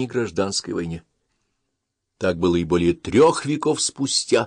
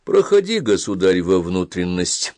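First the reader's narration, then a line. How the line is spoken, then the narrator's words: Calm reply. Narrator (Russian): спокойно отвечал юродивый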